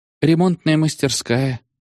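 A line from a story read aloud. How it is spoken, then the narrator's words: Sighing. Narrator (Russian): вздохнул он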